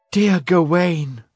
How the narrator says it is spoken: she cried

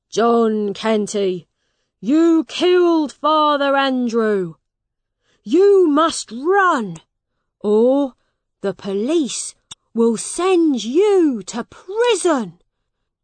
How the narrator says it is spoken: A man shouted

